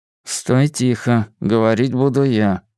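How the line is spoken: Muttered from mouth corner. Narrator (Russian): процедил уголком рта

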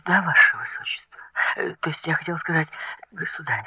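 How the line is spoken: Frightened mutter. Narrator (Russian): в испуге пробормотала она

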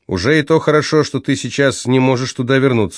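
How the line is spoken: Plain. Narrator (Russian): сказала Юнуэн Лоредо

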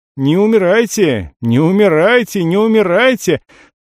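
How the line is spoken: System shouting. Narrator (Russian): буквально кричала система

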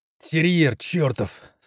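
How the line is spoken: Wounded man's groan, clenched teeth. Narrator (Russian): сквозь зубы простонал раненый

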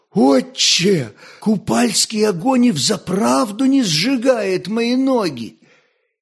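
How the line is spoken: Delighted exclamation. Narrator (Russian): он восторженно воскликнул

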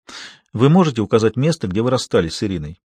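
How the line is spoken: Softer question. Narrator (Russian): спросила она уже более мягким голосом

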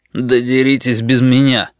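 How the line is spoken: Disgusted grumble. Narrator (Russian): Один игрок с отвращением проворчал

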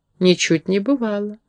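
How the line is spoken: Calm objection. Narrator (Russian): спокойно возразил гном

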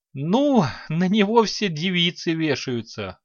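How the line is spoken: Short laugh. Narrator (Russian): хохотнул Санти

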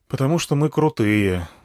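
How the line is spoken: Sighed. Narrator (Russian): вздохнул я

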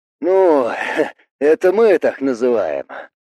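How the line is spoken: Snort. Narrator (Russian): хмыкнул Билл

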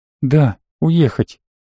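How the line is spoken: Girl's sad smiling voice. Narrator (Russian): грустно улыбнулась девушка

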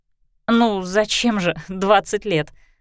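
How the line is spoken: Giggling. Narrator (Russian): Кристина хихикнула

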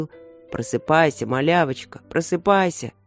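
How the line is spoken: Deep booming voice. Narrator (Russian): Он басил

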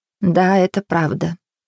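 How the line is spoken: Quiet confirmation. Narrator (Russian): тихо подтвердила Хелен

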